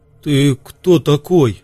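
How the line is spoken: Strained forced words. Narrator (Russian): с трудом выдавил из себя Ясон

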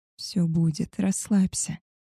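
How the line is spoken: Soft, soothing. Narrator (Russian): мягко успокоила его

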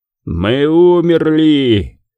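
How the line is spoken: Roaring. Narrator (Russian): взревел Шайтан

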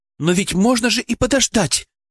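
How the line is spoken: Raised voice, quickly restrained. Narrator (Russian): Она повысила голос, но тут же спохватилась

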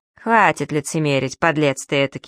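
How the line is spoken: Cold smirk. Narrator (Russian): холодно усмехается он

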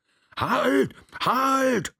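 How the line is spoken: Voice shouting. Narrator (German): schrie eine Stimme

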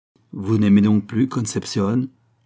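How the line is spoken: Plain. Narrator (French): lui demanda-t-elle

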